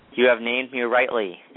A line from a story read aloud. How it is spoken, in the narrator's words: it said